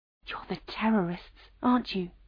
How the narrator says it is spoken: She whispered

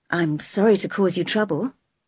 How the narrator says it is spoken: said miserably

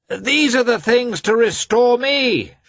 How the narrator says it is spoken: shouted Petritsky on seeing the newcomers

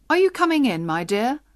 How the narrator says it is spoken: he called out to Baptista

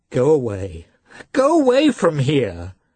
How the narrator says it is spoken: she cried in a still shriller voice

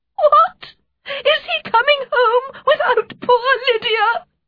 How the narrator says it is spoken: she cried

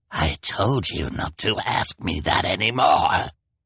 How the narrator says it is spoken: replied Olaf with a snarl

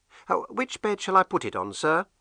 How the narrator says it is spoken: the girl asked

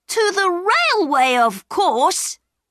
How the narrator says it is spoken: cried Peter

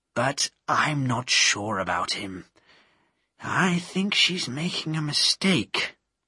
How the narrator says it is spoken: said quietly

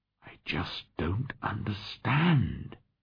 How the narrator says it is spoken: he whispered

